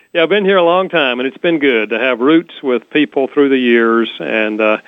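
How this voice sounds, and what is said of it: North Carolina accent. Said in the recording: “you have a lovely accent. ... North Carolina.”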